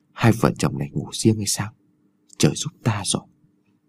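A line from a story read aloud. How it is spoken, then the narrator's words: Old man whispering. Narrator (Vietnamese): lão thì thào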